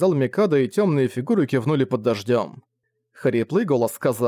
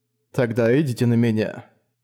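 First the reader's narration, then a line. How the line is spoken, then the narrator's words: Low chilling voice. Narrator (Russian): сказал Ди низким голосом, который заморозил дождь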